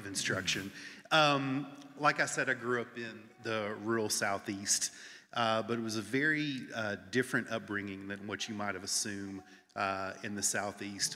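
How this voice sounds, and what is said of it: Rural Southern US accent. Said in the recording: “I grew up in the rural Southeast. Some of you may need some translation ... I have tried really hard to tone down the accent”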